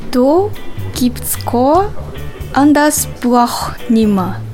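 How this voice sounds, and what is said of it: Bavarian dialect phrase. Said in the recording (German): “Doppelte Verneinung ist typisch für das Bayerische.”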